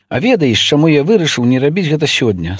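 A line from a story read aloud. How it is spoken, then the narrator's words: Sly smiling question. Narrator (Belarusian): спытаў, хітра усміхнуўшыся ён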